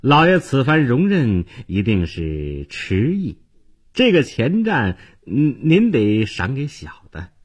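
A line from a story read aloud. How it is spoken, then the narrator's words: Fawning, ingratiating tone. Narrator (Chinese): 店家…脸上堆起谄笑，接着说道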